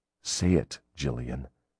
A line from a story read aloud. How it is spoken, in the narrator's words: he whispered huskily